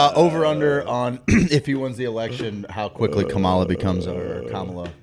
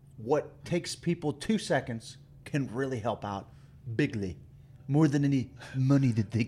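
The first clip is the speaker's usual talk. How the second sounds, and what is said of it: Imitates another person's voice. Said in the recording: “Trump impersonation? That's good.”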